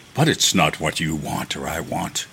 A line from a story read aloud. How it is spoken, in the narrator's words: he said savagely